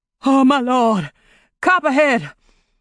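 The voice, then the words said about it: Hoarse crying out. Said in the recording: “cried hoarsely”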